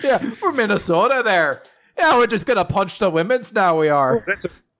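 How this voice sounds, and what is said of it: Put-on Minnesota Midwestern accent. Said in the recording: “Now it's just Midwestern United States accent. ... Minnesota.”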